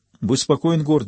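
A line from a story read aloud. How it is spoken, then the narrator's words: Plain. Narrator (Russian): сказал Жак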